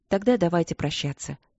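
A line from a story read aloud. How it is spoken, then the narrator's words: Polite, soft. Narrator (Russian): вежливо и мягко произнесла ее величество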